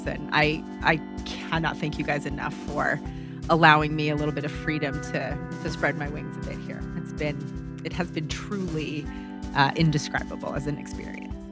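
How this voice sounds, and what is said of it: Emotional, teary voice. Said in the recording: “I'm getting teary-eyed.”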